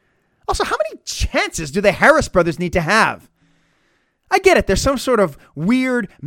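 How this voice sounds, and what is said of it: Usual voice. Nothing is said of it.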